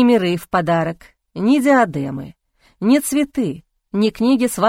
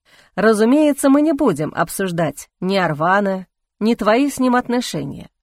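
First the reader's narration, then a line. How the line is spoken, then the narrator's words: Smirking. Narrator (Russian): хмыкнул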